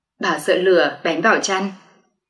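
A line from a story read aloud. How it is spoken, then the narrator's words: Soft, smiling. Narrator (Vietnamese): Bà dì mỉm cười khẽ nói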